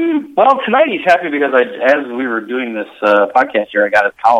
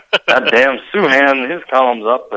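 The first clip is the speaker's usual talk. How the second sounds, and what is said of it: Drunk-sounding, throaty grunting voice. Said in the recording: “your imitation of Sid is exactly the same as my dad's ... he sounds drunk ... close your throat and grunt”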